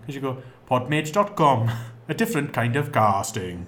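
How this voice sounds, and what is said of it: Slightly exaggerated Welsh accent. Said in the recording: “I'm putting on the Welsh just a little bit”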